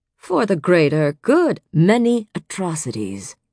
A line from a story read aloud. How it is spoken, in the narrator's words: purred